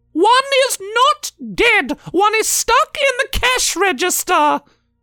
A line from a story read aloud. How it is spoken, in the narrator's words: Elizabeth screamed in her mind